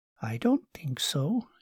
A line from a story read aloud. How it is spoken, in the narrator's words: said quietly